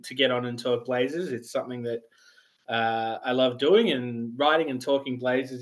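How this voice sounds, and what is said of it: Australian accent. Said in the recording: “I'm an Australian, in case you hadn't have realized... I could tell just a little bit.”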